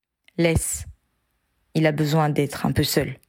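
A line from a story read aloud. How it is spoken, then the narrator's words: Said in low voice. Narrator (French): qui lui dit à voix basse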